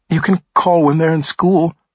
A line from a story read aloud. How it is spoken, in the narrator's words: she pleaded with him